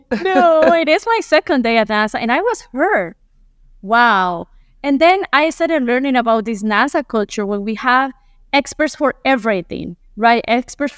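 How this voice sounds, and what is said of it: Strong Colombian Spanish accent. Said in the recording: “I'm a Colombian lady with ... with a lot of accent.”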